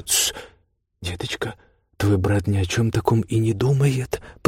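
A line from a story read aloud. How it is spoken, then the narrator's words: Whisper. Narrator (Russian): прошептала матушка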